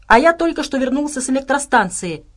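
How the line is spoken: Barked. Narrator (Russian): рявкнул Джеффри

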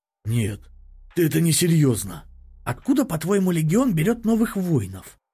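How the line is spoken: Hissing. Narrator (Russian): Прошипел Септимус

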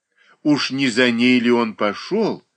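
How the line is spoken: Exclamation. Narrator (Russian): воскликнула Марья Дмитриевна

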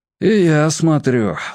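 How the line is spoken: Sigh. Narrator (Russian): вздохнул отец Евгений

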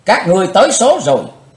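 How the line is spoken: Hateful scream. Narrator (Vietnamese): Chí Tôn thét hận thù

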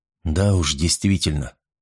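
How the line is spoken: Absent-minded mutter. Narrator (Russian): пробормотал тот машинально, мыслями пребывая где-то далеко

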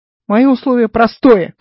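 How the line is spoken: Shouted reply. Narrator (Russian): крикнул Гай в ответ

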